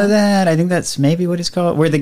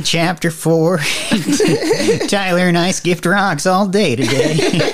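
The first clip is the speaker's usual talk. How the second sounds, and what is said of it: Imitates a movie voiceover narrator. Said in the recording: “really good at doing voices... trying to do the wizard people voice... the guy did the voiceover all the way through the Harry Potter first movie”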